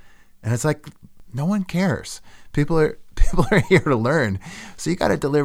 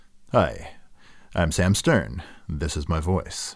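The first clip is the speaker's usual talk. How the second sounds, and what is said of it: Mock newscaster voice. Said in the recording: “falling into like a newscaster voice”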